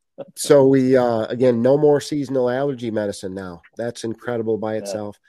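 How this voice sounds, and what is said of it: Yankee New England accent. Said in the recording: “my Yankee accent”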